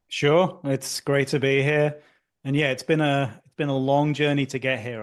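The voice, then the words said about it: British accent. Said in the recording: “as you can tell from the accent. I'm not from around these parts ... I grew up in the UK”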